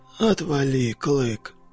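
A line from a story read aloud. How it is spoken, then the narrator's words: Whisper. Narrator (Russian): прошептал вьюга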